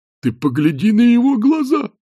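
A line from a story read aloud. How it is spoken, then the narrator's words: Exclaimed. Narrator (Russian): воскликнул один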